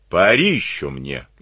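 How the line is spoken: Rough, rude. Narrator (Russian): грубо сказал

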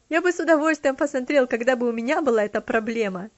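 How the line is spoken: Laughing. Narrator (Russian): смеясь, ответил он

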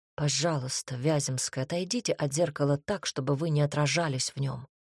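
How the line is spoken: Quiet addition. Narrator (Russian): ответил Горич и тихо добавил

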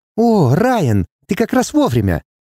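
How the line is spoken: Joyful exclamation. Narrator (Russian): радостно восклицает Алана

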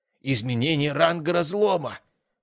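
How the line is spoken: Breathless exclamation. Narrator (Russian): выдохнул старший техник

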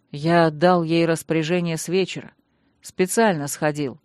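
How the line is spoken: Calm explaining. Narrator (Russian): продолжал спокойно пояснять Танрад

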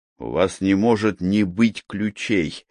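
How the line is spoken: Angry. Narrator (Russian): сказал я зло

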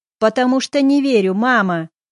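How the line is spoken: Yelling. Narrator (Russian): заорал

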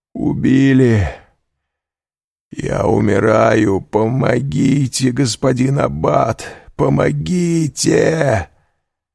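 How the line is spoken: Hoarse dying cry. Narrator (Russian): из последних сил крикнул хриплым голосом

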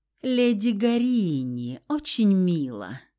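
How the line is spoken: Mocking drawl. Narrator (Russian): с издевкой протянул Феникс

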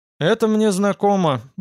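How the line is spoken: Gruff mutter. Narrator (Russian): буркнул я

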